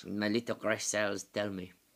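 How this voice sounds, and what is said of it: Impression of Poirot's voice. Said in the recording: “That was my Poirot. ... that's a really good impression.”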